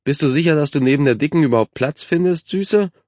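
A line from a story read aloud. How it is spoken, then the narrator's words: Mocking boy. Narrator (German): spottete ein Junge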